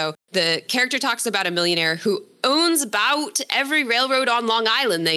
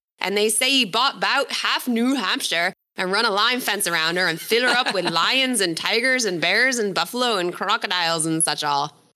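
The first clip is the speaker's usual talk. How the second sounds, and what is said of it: Put-on old-fashioned regional rural accent. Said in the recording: “excuse my accent, this is literally how it's written. It's written like kind of phonetically ... I don't know what kind of accent that's supposed to be ... the old New Hampshire accent”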